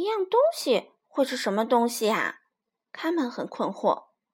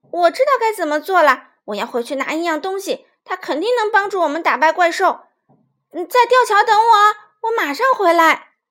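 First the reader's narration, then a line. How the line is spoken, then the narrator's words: Sudden shout. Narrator (Chinese): 卡梅利多突然喊道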